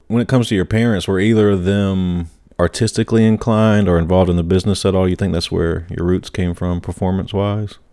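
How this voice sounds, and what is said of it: Charming South Carolina accent. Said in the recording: “your accent's very... ... I'm in South Carolina. I get it all the time. ... we don't have as charming an accent as you”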